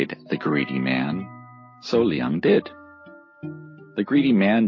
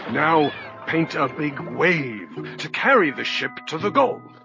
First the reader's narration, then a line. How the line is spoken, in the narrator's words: he cried